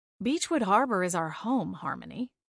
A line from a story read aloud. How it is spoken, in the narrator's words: I said gently